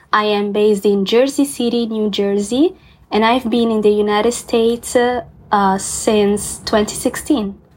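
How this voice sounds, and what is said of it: Italian accent. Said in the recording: “I was born and raised in Florence, Tuscany, and that's in Italy. You maybe can hear from my accent.”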